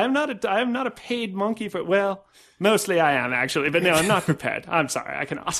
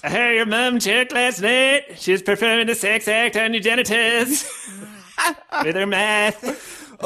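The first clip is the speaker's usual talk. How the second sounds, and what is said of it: Poor imitation of another person's voice. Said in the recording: “do it in your Michael Bisping voice ... your awful Michael Bisping impression”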